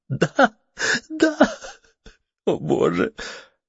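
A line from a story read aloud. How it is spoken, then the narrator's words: Breaking into sobs. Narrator (Russian): Кейт перестала говорить и разрыдалась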